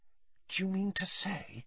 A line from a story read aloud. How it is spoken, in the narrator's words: said Hermione in a hushed voice